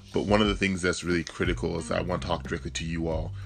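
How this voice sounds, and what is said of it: Deep, dry morning voice. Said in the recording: “so my voice is a little deep, it's a little dry”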